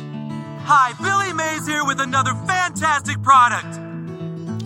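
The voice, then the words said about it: Billy Mays impression. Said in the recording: “You're Brighton's fourth best Billy Mays impersonator.”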